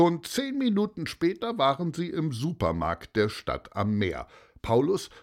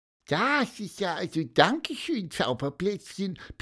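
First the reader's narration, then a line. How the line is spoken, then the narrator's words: Squeak. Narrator (German): piepste Pieper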